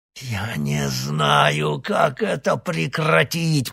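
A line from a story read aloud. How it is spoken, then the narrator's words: Hoarse rasp. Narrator (Russian): прохрипел Никита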